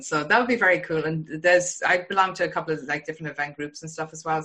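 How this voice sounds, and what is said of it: Irish accent. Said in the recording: “I'm not from Boston, obviously the accent ... I'm from Ireland.”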